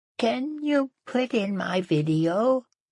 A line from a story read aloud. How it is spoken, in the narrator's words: In a little girl voice, said